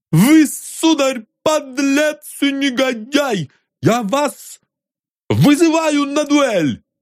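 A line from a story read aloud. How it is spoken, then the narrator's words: Plump youth shouting, voice trembling. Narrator (Russian): упитанный юнец и дрожащим от волнения голосом прокричал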